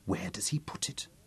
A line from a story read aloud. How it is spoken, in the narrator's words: Lizzie asked softly